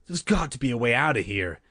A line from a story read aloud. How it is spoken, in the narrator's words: she answered breathlessly to the thief